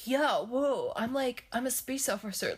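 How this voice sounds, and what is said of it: Imitates another person's voice. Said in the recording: “doing a Keanu Reeves impersonation ... space Keanu”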